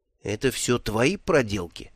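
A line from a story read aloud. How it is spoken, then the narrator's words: Whispered. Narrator (Russian): шепнул Брута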